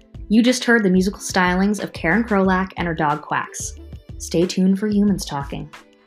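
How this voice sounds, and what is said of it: Public radio announcer voice. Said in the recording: “this is my best NPR voice.”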